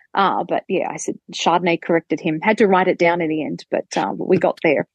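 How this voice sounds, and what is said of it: Australian English accent. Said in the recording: “my Australian English accent”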